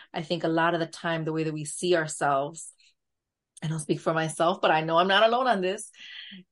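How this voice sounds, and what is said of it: New York Latina accent. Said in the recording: “I hear my accent. I hear the Latina accent. It's like borderline New York Latina accent.”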